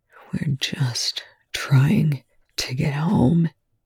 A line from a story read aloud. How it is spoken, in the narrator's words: he whispered